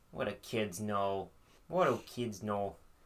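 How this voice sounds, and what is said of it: Put-on Midwest accent. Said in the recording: “That's like a weird Midwest accent now.”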